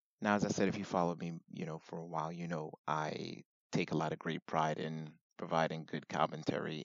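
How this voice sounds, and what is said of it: Raspy voice. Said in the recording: “Sorry about the raspy voice.”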